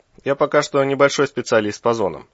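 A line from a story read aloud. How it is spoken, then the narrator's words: Wry snort. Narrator (Russian): хмыкнул Березов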